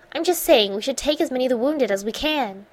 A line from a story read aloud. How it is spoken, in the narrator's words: snapped impatiently